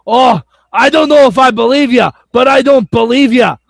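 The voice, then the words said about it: Imitates another person's voice. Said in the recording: “my Drew Galloway impression ... It's actually pretty good ... It's on point”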